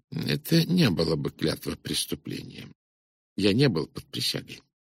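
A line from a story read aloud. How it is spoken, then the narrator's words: Gentle. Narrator (Russian): Пуаро мягко заметил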